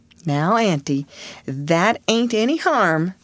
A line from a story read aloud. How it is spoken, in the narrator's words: pleaded Mary